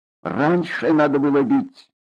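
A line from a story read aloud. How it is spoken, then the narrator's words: Plain. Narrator (Russian): сказал сосед напротив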